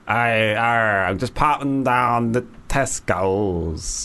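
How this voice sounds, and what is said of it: Attempted pirate accent. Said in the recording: “I don't know if I could do a pirate accent ... Say I'm just popping down to Tesco's as a pirate ... It's not that bad.”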